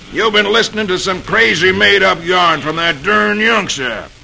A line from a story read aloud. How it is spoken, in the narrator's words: Captain Clune snorts